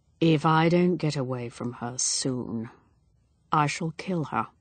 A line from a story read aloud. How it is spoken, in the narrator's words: Edward said in a low voice